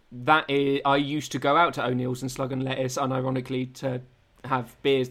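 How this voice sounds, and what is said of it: Essex English accent. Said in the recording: “Listen to my Essex accent come out again.”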